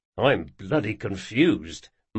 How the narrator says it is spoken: muttered the other guard

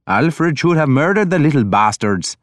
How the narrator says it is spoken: Ragnar told me cheerfully

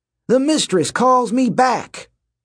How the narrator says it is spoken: Dylan shouted with glee

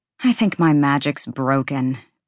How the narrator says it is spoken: Bryce said, sighing

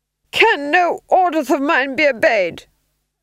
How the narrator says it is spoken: he screamed

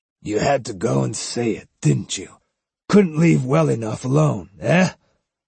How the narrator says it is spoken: With a rueful laugh

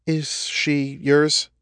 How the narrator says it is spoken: She asked hesitantly

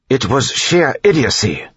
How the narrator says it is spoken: Tyndall snapped

